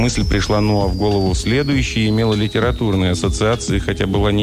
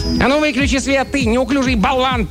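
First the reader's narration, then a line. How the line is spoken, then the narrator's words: Sharp scolding shout. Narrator (Russian): прикрикнул на него один из человечков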